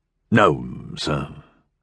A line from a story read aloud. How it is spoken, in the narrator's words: Frunzer sighed